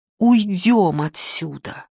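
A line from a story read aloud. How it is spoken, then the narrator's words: Pleading. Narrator (Russian): взмолился я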